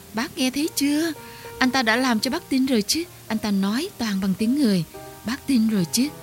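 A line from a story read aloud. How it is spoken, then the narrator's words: Admiring excited cries. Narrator (Vietnamese): Mấy chị chim chì vôi thán phục reo lên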